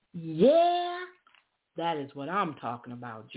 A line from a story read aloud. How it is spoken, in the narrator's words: Jordan shouted